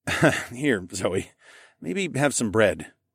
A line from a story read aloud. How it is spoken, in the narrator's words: I chuckled